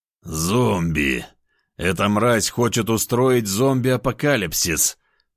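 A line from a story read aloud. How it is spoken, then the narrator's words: Groaning. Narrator (Russian): простонал я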